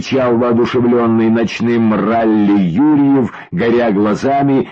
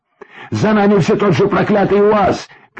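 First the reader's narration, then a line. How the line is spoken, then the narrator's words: Shouting, losing composure. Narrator (Russian): кричал в ответ, теряя самообладание, Максим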